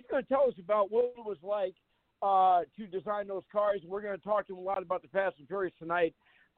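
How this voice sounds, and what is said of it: Strained, worn-out voice. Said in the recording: “my voice is a little peaked after calling the events at Puffermania Immortal last night ... I overdid it a lot, and my voice is not up to snuff”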